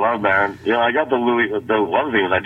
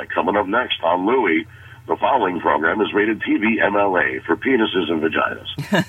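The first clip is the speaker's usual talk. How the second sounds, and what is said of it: TV announcer voiceover voice. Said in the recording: “I do the voiceover for the Louis show ... I do that voice.”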